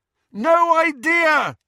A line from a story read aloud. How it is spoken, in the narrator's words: Harry bellowed back